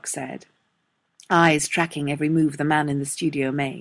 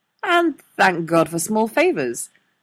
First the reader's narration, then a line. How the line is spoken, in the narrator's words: Neil chimed in cheerfully